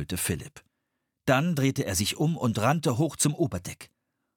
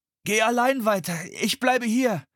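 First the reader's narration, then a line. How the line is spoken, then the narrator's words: Calling out. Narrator (German): rief er Anne zu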